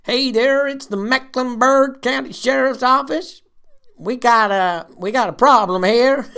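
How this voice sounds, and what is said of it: Put-on regional accent. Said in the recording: “Put that in the H bank of accents.”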